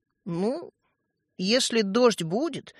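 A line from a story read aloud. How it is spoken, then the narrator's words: Hesitant. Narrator (Russian): неуверенно проговорил Светлик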